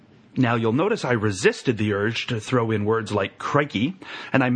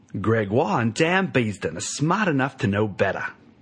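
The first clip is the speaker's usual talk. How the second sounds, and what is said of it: Attempted Australian accent. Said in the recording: “here is my attempt at an Australian accent.”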